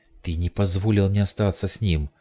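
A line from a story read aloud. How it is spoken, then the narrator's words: Angry exclamation. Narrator (Russian): воскликнула она, не в силах больше сдерживать свой гнев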